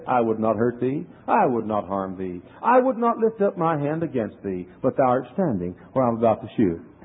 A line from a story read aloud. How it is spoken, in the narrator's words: very courteously and kindly, you know, as the Quaker said